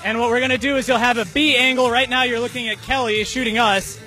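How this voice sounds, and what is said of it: Shouting over loud background. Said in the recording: “it was pretty loud there ... we're yelling ... we were doing a lot of shouting”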